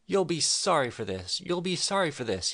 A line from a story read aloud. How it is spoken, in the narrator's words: he cried